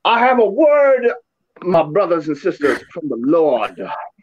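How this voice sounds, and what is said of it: Southern preacher Billy Graham impression. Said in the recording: “a Billy Graham kind of Southern joint ... in your best Billy Graham voice”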